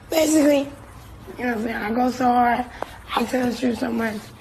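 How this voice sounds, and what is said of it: Hoarse, nearly lost voice. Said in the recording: “I lost my voice. ... I lost my voice”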